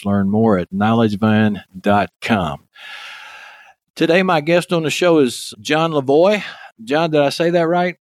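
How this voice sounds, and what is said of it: Texas accent. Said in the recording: “my Texas accent”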